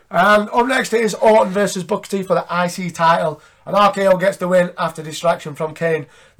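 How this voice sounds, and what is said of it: Congested voice with a cold. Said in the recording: “I've been full of cold all week. You might have noticed my voice is a lot different.”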